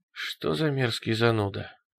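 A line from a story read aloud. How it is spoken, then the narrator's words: Sigh. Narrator (Russian): вздохнул Руди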